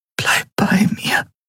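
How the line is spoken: Whispered. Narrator (German): flüsterte sie

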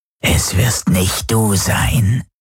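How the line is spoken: Growled by creature. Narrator (German): knurrte der Vierarm

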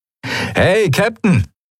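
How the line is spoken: Called out. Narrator (German): rief Sephiron der Skria zu

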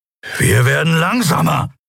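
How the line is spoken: Snarling. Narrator (German): fauchte Kero

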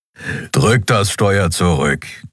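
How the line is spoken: Growl. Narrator (German): knurrte der Skrier

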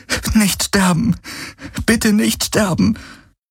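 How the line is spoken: Repeated pleading. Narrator (German): flehte sie immer wieder

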